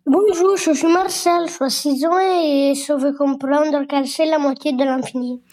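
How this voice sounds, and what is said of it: Child with a charming accent. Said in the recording (French): “ton petit accent, je ne sais pas d'où il vient, mais qui est absolument charmant”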